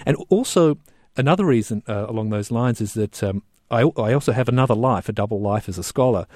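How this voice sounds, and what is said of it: Australian accent. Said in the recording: “my accent, I'm an Australian”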